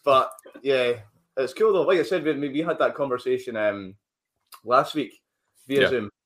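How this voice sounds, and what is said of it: Mild Scottish accent. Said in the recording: “we've got our Scottish accents as well ... this is actually quite a tame accent”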